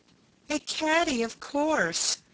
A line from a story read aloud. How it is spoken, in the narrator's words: cried both ladies together